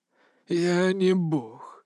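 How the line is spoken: Hoarse, unsure voice. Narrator (Russian): прохрипел он, и в этом голосе уже не было ни уверенности, ни величия

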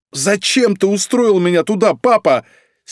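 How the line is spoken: Sudden furious shout. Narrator (Russian): С неожиданной яростью выкрикнула она

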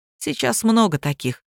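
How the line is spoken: Sighing, stern man. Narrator (Russian): вздохнул суровый Сергей Петрович

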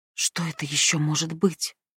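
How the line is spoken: Whisper. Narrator (Russian): прошептала Абигейл

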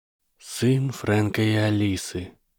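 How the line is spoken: Sad muttering. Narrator (Russian): печально пробормотал Ремус

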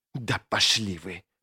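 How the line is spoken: Hissed. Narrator (Russian): прошипела

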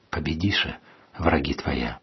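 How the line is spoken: Said quietly. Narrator (Russian): тихо сказал

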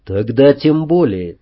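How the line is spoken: Quiet. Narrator (Russian): тихо сказал

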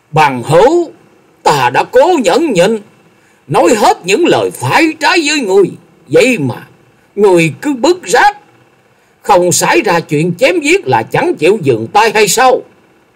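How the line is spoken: Furious, through clenched teeth. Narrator (Vietnamese): Lòng nhẫn nại của Lâm Tường đã đến giới hạn cuối cùng, y nghiến chặt răng rồi quát

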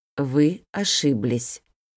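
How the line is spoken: Slow. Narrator (Russian): медленно произнес он

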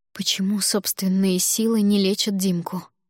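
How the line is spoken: Trembling voice. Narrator (Russian): дрожащим голосом спросила я

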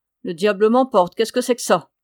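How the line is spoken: Shouting. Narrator (French): cria-t-il

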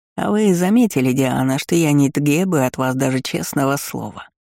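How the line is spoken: Ingratiating purr, fat cat. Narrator (Russian): вкрадчиво промурлыкал бритский толстый кот

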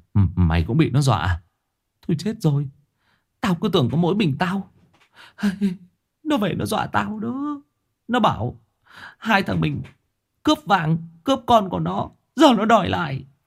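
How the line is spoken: Stammering. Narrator (Vietnamese): gã lắp bắp

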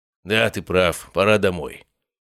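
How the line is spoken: Calmer mumble. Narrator (Russian): уже более спокойно пробубнил Матвей

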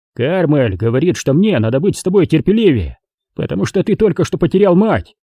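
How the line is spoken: Grumbled. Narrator (Russian): пробурчал Дэйв

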